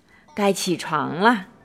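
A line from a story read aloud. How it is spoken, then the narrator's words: Soft, gentle. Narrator (Chinese): 巴蒂轻声地说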